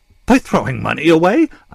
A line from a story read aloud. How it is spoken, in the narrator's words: I yelped and fought for control